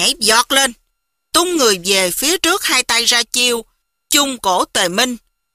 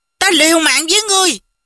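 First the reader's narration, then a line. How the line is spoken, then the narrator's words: Trembling furious shout. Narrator (Vietnamese): Mục Dịch tức giận, toàn thân phát run quát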